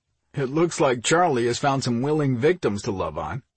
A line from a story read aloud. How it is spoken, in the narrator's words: Mike chuckled